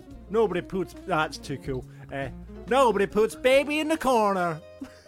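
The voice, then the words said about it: Put-on American hick accent. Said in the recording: “do that line for me in an American accent. ... In a hick accent”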